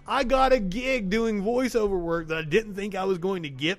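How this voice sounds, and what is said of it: Slight Southern US drawl. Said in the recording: “Southern ... I do have a slight draw ... my accent”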